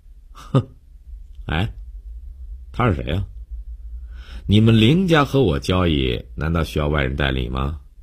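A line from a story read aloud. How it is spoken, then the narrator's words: Sneering, pointed question. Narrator (Chinese): 江帆冷笑了一下，故意对林信成问道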